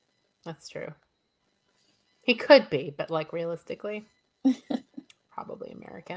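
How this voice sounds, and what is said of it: Usual voice. Nothing is said of it.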